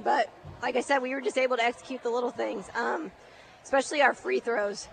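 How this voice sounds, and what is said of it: Hoarse, strained voice. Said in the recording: “I've lost my voice because it was loud in this gym and I'm screaming”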